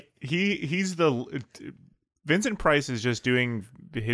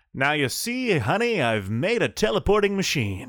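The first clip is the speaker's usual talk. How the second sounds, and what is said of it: 1950s transatlantic radio-style accent. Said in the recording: “classic 1950s transatlantic accent ... Too much radio personality voice”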